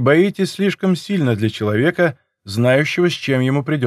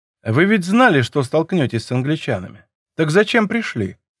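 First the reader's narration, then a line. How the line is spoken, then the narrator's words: Calm question. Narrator (Russian): спросил я спокойно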